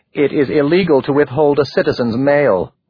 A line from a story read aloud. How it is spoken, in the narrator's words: Wolf said